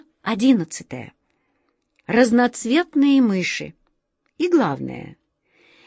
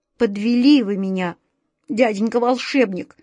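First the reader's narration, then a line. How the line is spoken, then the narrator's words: Trembling, breaking voice. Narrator (Russian): дрожащим голосом не выдержав, проговорил Вася Вертушинкин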